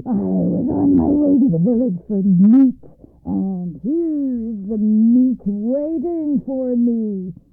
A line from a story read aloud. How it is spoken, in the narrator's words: he roared